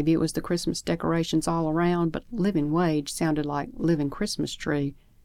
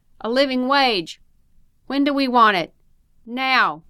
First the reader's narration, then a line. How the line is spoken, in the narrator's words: The crowd shouted